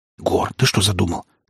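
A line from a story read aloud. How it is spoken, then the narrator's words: Urgent whispered question. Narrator (Russian): таким же порывистым шепотом спросил меня брат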